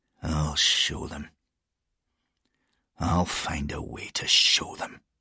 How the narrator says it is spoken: he muttered

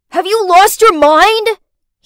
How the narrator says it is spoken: he shouted

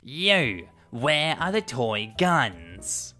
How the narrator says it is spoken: she was probably on something, and she says in an obnoxious tone

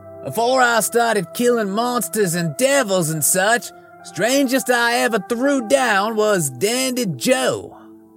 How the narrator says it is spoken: I yelled

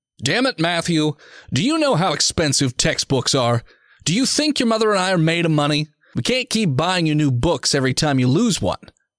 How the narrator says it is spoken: his father yells at him from across the dinner table

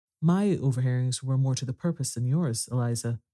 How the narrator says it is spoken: said Charlotte

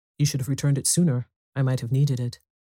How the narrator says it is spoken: Madame Forestier said coldly

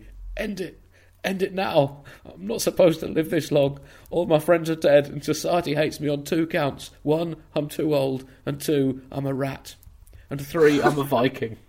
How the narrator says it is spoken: A Norwegian rat, gasping for air, squeaking

